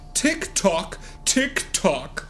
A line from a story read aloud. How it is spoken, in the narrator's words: he laughs